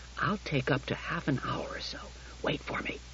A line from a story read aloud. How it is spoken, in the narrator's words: He whispered to Daniil